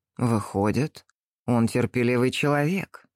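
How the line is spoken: Plain. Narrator (Russian): сказал генерал

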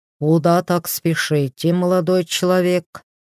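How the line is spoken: Booming thick bass. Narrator (Russian): прогудел Мороз густым басом

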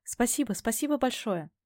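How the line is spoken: Rapid chatter, holding back sobs. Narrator (Russian): Опять затараторила я, едва сдерживая подпирающее горло рыдание

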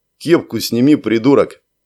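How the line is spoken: Perfectly calm. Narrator (Russian): совершенно спокойно ответил Алексей

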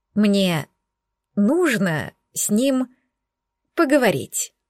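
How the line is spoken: Slow repetition. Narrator (Russian): медленно повторила Алина

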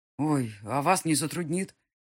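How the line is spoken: Breathless, straining exhale. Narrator (Russian): выдохнула спина, пытаясь вытянуть один угол сундука из узкого прохода

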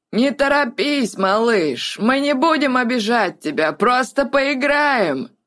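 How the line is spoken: Hoarse mocking shout. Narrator (Russian): Хриплым насмешливым голосом крикнул Гэт в спину петляющей по снежным лабиринтам жертвы

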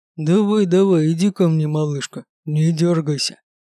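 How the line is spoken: Menacing growl. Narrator (Russian): прорычал кошмарный тип

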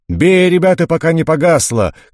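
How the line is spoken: Sergeant shouting. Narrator (Russian): кричал вахмистер

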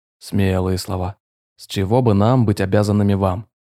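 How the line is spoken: Growl. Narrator (Russian): рыкнул командир

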